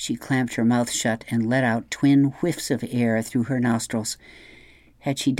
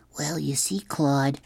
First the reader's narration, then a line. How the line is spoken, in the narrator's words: Jamie whispered